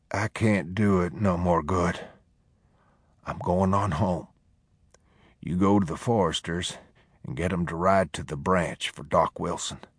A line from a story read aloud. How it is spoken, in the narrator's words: He said quietly